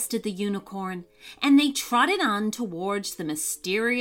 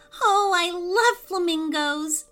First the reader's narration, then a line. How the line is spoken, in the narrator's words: said Jojo excitedly